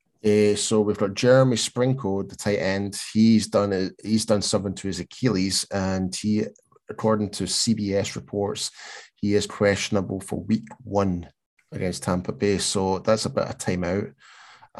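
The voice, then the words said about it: Speaks with a noticeable accent. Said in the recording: “I cannot pronounce his set surname. I'm sorry, it's just my accent. it's my accent”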